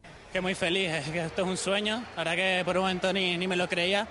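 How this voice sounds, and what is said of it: Canarian Spanish accent from Tenerife. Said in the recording (Spanish): “acento tinerfeño que se gasta ... más canario que el Teide, de Tenerife”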